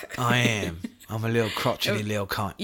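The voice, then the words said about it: Put-on cockney British accent. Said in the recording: “the crickety old British man ... You just took it like cockney.”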